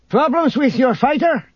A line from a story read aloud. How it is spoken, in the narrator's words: Isolde shouted across the room